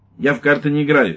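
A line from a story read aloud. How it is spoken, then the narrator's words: Sharp. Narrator (Russian): резко сказал лейтенант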